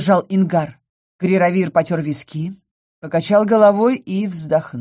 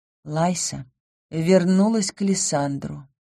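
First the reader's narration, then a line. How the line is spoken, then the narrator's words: Quiet answer. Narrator (Russian): тихо ответила вместо бога равновесия я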